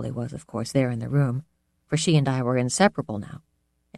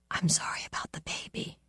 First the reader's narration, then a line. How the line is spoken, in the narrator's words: she whispered